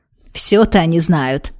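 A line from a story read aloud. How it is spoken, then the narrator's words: Ringing laugh. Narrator (Russian): заливисто засмеялась сестра Шаная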